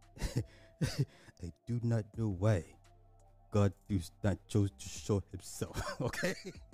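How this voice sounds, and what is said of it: Imitating a man's accent. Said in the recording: “This is literally his accent. I'm quoting his accent bar for bar.”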